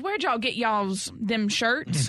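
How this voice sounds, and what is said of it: Heavy Southern US accent. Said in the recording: “This so Southern guy, like the most Southern accent I think I've ever heard.”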